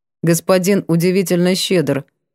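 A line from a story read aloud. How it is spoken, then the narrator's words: Dry and firm. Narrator (Russian): произнесла сухо и твердо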